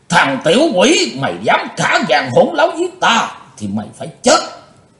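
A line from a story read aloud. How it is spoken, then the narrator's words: Panicked loud roar. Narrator (Vietnamese): Hắn hốt hoảng gầm to lên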